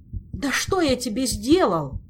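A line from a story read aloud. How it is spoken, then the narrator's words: Exhausted old man's groan. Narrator (Russian): измученно простонал старый магистр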